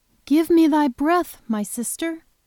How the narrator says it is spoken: exclaimed Beatrice

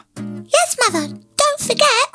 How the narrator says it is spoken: cried the little ones

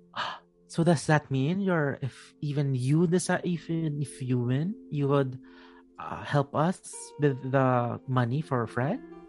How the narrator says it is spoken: we stammer a little bit

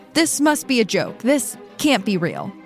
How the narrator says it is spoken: Nasubi can be seen on a hidden surveillance camera shouting

